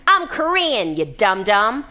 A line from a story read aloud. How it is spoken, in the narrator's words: Janet was pleased with the opportunity to make him work for once, shouting